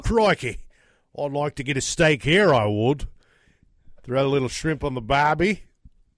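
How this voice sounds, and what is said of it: Put-on Australian accent. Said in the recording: “Would you go with the Aussie accent also?”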